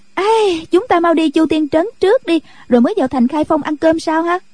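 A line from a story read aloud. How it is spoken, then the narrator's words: Excited exclamation. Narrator (Vietnamese): Cô reo lên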